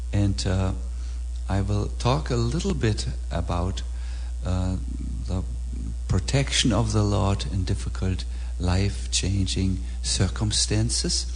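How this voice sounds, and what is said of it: Heavy German accent. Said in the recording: “my heavy German accent”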